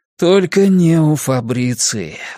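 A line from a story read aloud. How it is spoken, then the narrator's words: Sighing. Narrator (Russian): вздохнул Кориолан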